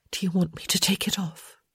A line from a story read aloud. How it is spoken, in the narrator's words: she whispered